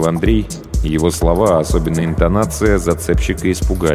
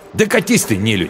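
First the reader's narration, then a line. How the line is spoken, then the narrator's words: Angry snapping retort. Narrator (Russian): Зло огрызнулся он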